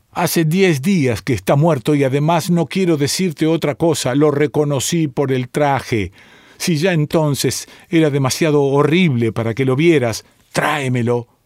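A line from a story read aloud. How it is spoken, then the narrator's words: Shouted, woman. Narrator (Spanish): gritó la mujer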